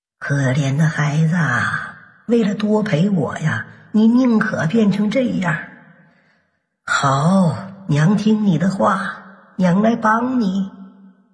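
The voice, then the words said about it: Hoarse, slow old voice. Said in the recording (Chinese): “沙哑的声音呐，缓缓说道 ... 那个沙哑的声音说”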